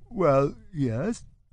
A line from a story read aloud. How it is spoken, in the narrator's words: Friedank stutters, suddenly confused